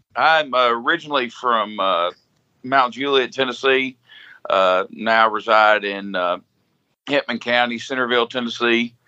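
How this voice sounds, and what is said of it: Southern twang. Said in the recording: “You have a twang.”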